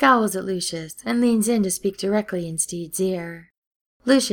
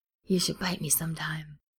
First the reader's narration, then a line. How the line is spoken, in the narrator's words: Ed whispers to Steed